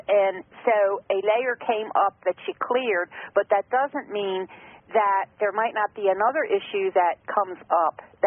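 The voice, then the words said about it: Slight southern American accent. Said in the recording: “Is that a southern accent? ... I guess I must sound like I have a southern accent. ... A little bit”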